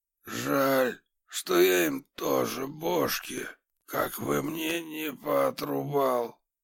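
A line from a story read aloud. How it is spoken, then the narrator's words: Hoarse wheezing. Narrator (Russian): Продолжал он сипеть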